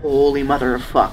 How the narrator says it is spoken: said Vince

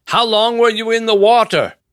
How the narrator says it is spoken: Nevin yelled

